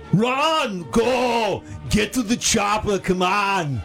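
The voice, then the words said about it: Arnold Schwarzenegger impression. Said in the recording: “is going to do an impression ... It's Arnold Schwarzenegger.”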